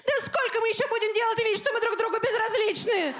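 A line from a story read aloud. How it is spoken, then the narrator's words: Shout. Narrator (Russian): крикнуть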